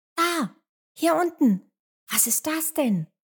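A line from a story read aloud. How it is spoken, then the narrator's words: Excited call. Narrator (German): ruft Emmerla aufgeregt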